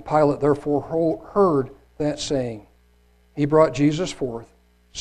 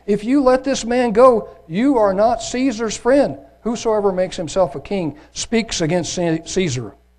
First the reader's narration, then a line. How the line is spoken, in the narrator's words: the Jews cried out, saying